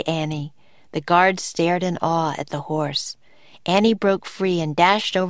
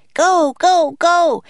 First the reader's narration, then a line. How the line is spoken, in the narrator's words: Annie cried to the huge white horse